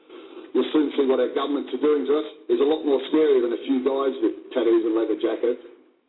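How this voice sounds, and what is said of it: Australian accent. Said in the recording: “that man with his Australian accent”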